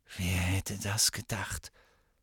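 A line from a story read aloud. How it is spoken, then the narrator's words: Whispering. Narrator (German): flüsterte Ron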